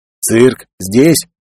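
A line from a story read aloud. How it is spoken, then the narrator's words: Uncertain mutter. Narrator (Russian): неуверенно пробормотал Жикар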